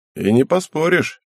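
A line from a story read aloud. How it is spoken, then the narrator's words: Grunt. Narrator (Russian): хмыкнул Отома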